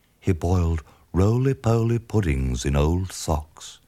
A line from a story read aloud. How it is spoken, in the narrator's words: said Hubert dreamily